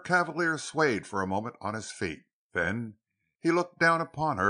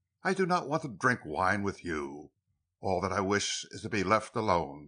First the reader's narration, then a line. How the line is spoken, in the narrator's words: the girl insisted curtly